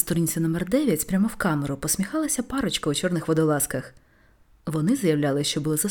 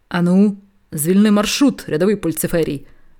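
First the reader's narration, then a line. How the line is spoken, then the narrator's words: Huge person barking. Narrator (Ukrainian): гаркнула гора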